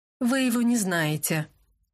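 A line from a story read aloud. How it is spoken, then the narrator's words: Gloomy reply. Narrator (Russian): мрачно ответил Люк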